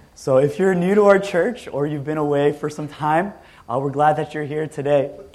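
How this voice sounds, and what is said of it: Hoarse, weakened voice from illness. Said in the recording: “excuse my voice a bit. This is actually better than what it was ... I've been sick over the last week, so I lost my voice”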